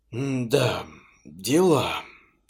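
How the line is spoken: Stunned exhale. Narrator (Russian): ошеломленно выдохнул я

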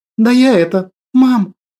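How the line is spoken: Breathed out. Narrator (Russian): Выдохнула девушка

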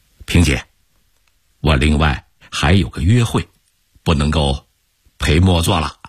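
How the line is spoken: Sudden remark. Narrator (Chinese): 罗明忽然说

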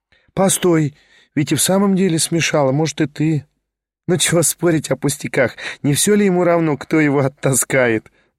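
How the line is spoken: Female laughter. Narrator (Russian): засмеялась она

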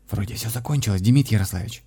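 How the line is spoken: Young fisherman whispering. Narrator (Russian): прошептал молодой рыбак

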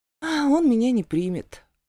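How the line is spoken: Sighing sulky grumble. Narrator (Russian): вздохнув, проворчала я и, насупившись

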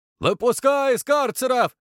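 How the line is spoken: Shout. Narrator (Russian): крикнул голос

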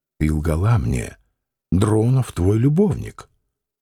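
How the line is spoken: Quiet, contemptuous, angry. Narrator (Russian): подчиняясь вспыхнувшей злобе, он сказал негромко и презрительно

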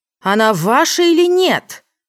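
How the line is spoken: Yelled reply. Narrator (Russian): заорала в ответ Джен

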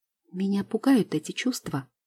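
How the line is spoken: Timid. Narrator (Russian): произношу робко

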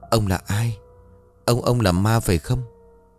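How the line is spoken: Stammering. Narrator (Vietnamese): Nó liền lắp bắp

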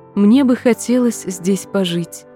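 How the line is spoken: Melodious little voice. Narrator (Russian): продолжала смерть мелодичным голоском

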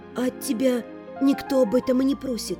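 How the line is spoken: Whisper. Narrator (Russian): прошептала я

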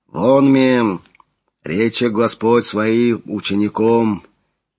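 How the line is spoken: Low deep voice. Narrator (Russian): Низким глубоким голосом начал Флавиан

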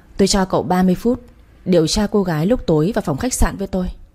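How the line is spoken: Cold. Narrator (Vietnamese): Giọng Thế Kiệt lạnh lùng trả lời

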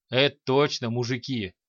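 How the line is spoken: Orc's short laugh. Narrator (Russian): хохотнул орк

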